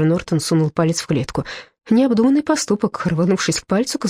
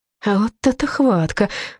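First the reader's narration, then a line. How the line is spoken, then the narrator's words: Hoarse, through clenched teeth. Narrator (Russian): прохрипел он сквозь зубы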